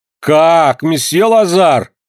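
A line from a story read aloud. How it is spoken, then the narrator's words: Shouting. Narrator (Russian): закричала Вероника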